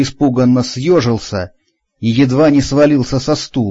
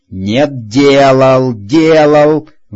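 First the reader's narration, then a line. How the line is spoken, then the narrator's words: Roar. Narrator (Russian): взревел Ланько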